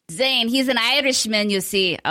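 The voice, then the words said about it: Bad put-on Irish accent. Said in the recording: “I don't know what accent that was. That was so awful and terrible. I am so sorry to my friends across the pond that I have offended.”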